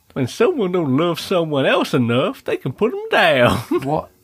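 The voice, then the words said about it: Dinosaur character with southern drawl. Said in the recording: “Why is it got a southern drawl? Why is it a dinosaur? ... And the southern drawl is just because it's funny.”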